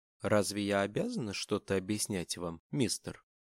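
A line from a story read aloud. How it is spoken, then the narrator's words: Calm question, hidden agitation. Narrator (Russian): спокойно спросила она, радуясь, что голос не выдает ее сметенное состояние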